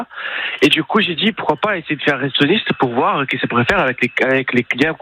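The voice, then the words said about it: Brazilian accent in French. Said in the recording (French): “on l'entend à votre accent. Vous êtes brésilien”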